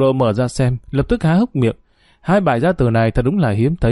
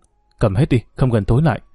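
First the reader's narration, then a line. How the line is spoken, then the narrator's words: Nervous soft mutter. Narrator (Vietnamese): Quả tim thì nhảy dựng lên khẽ lẩm bẩm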